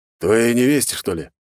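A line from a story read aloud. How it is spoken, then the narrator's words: Scoffing grunt. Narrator (Russian): хмыкнул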